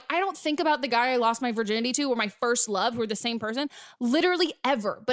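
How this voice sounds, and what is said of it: Southern American accent. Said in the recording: “I also love that you're Southern. I heard that accent.”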